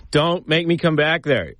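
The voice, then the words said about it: Stern parent voice. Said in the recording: “talk like a parent ... That one kind of sounded like my dad.”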